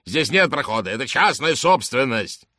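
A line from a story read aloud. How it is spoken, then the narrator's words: Yelling. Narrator (Russian): орал он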